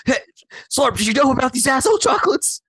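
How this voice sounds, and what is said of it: Imitates another person's voice. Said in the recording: “Why is that my voice? ... how good was his impression?”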